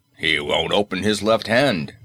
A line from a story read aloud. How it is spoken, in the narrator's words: growled, his voice indicating muscular strain